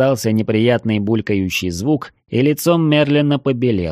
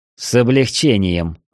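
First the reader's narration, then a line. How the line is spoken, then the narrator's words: Angry. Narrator (Russian): зло произнес я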